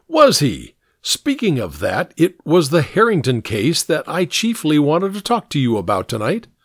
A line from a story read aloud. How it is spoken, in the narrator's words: Hare exclaimed